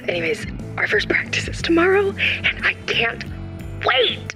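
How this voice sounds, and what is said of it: Whispering. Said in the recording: “I have to whisper because they have this thing called quiet hours”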